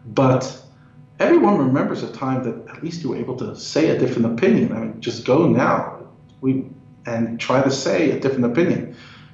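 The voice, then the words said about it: New York accent. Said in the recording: “I come from New York, if you haven't picked up on my accent.”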